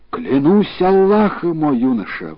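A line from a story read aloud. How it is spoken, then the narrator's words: Exclaiming king. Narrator (Russian): воскликнул царь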